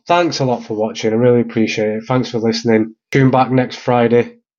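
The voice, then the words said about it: Slightly rough, hoarse voice. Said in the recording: “I've been coughing and sneezing ... I'm sorry if I sound a bit rough”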